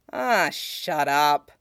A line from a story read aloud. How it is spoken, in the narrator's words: Ed grumbles